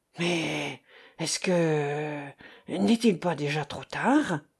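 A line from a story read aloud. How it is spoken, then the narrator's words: Boss murmuring. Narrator (French): murmure le patron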